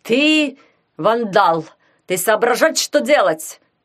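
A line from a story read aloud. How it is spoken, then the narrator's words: Shout. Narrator (Russian): крикнул он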